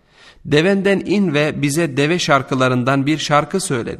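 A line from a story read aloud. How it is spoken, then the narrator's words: Plain. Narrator (Turkish): dedi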